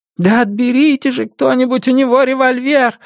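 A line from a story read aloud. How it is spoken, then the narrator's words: Woman screaming. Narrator (Russian): закричала какая-то женщина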